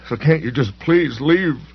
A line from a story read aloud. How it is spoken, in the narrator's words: His cries abruptly diminished